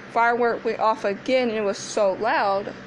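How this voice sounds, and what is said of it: Yelling, loud excited speech. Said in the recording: “Sorry, I'm yelling.”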